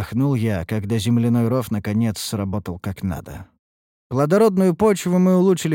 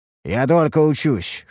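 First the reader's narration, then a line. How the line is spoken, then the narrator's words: Snort. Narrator (Russian): хмыкнул я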